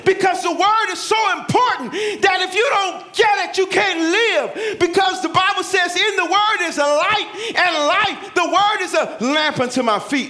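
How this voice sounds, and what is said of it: Yelling, loud preaching voice. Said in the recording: “I'm sorry, I'm yelling.”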